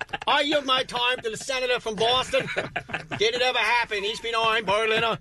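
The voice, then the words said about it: Unidentifiable put-on accent. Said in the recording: “I don't know what accent that was.”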